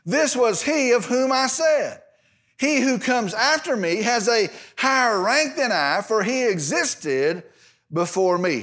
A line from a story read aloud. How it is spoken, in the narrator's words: cried out, saying